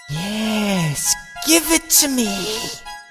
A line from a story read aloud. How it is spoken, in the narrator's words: she hisses